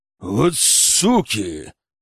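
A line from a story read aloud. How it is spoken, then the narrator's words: Bear growling. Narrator (Russian): зарычал медведь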